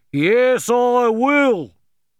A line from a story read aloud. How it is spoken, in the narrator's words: shouted